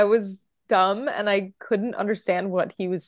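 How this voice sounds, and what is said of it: Usual voice. Nothing is said of it.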